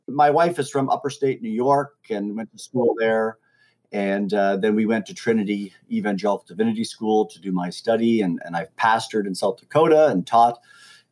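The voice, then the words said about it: Canadian accent. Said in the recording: “I originally come from Canada. And so you may hear a few accent... A's and abouts and outs”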